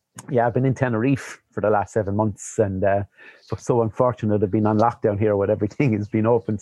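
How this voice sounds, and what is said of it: Irish accent. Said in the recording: “most people will tell the Irish accent”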